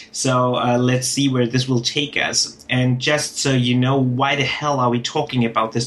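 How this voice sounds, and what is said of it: German accent. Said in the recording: “heard it from the accent, I am German”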